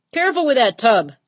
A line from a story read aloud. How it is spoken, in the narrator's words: the skipper hollered